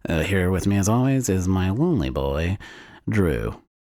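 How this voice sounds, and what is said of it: Put-on character voice with accent. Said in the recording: “because of the character you're doing ... That was part of the accent.”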